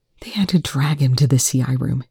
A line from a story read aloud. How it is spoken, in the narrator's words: Eli whispered